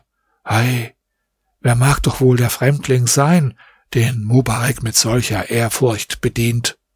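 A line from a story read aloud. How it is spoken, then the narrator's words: Quiet, amazed murmuring. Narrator (German): Die Großen von Kahira waren darüber sehr verwundert und sprachen leise untereinander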